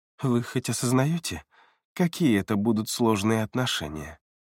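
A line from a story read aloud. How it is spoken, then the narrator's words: Gloomy sigh. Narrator (Russian): После долгой паузы Элеонора вздохнула и мрачно произнесла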